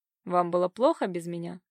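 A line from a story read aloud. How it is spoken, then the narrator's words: Snide question. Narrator (Russian): спросил он ехидно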